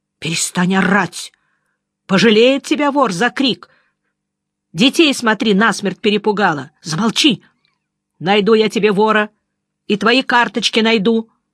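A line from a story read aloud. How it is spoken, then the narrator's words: Irritated shouting. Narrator (Russian): Жеглов, морщась от крика, закричал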